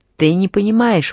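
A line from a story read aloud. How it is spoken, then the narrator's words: Exclaiming. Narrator (Russian): воскликнул Карлье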